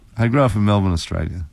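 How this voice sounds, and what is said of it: Cultured Australian accent. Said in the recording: “Love the way you say arbitrary ... this accent ... how is it you kept your accent”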